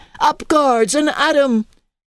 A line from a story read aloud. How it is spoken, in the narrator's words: heard Teddy Kent shouting